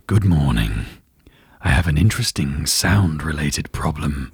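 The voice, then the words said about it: Geralt impression, Henry Cavill voice. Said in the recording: “do a Geralt impression? ... From The Witcher, this is Henry Cavill.”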